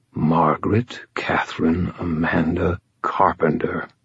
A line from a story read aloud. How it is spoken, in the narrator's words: he said, his voice hushed